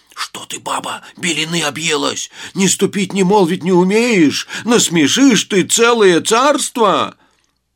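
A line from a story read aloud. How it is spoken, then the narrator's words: Frightened old man pleading. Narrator (Russian): Испугался старик, взмолился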